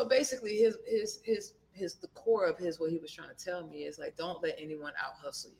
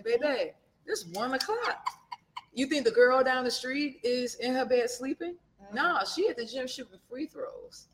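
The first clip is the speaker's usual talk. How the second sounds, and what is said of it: Put-on Louisiana accent. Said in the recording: “He's from Louisiana. So he had a little accent”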